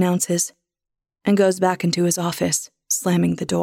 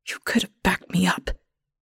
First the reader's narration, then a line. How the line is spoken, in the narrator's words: Ethel whispers, but I barely hear her ghost voice